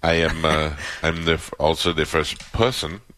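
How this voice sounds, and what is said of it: Imitates another person's voice, heavy accent. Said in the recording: “You're doing a lot. Too much accent.”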